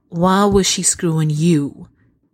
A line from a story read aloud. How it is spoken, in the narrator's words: Bones says slowly